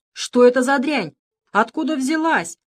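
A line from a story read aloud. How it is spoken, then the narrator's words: Indignant yelling. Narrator (Russian): орал возмущенный Плинтус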